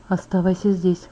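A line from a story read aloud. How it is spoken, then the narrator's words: Whispering in ear. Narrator (Russian): прошептал мне на ухо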